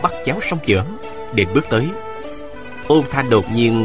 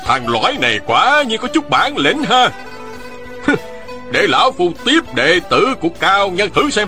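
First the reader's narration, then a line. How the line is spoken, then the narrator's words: Old man shouting. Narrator (Vietnamese): Ôn Phương Nghĩa hét lên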